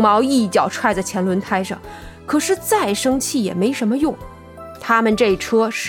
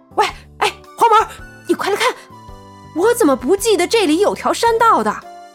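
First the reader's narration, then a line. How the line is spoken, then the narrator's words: Sudden shout. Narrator (Chinese): 突然，绿豆眼叫道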